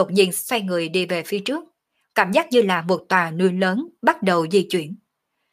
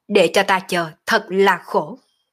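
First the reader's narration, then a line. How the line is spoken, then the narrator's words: Laughing loud shout. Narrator (Vietnamese): Động Vô Thường cười ha ha quát to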